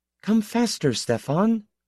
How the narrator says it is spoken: the girl beside him said timidly

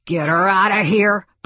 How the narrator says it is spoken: barked Spidle

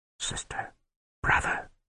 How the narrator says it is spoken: the wizard whispered

